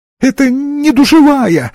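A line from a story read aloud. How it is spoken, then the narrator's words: Whining. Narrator (Russian): захныкал слабоумный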